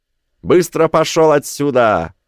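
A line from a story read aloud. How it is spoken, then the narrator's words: Roar. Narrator (Russian): проревел голос Зеллы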